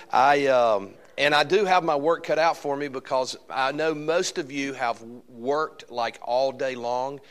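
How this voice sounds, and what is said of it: Southern American Alabama accent. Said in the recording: “my Alabama accent”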